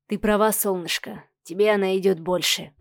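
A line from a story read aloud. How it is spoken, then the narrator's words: Mumbled. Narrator (Russian): пробормотал Михаил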